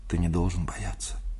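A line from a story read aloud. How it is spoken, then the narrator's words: Whisper. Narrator (Russian): сказала она шепотом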